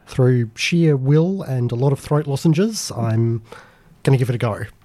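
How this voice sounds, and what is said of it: Sick, unwell-sounding voice. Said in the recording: “I'm not even close to 100% better, as our listeners can probably tell from my voice.”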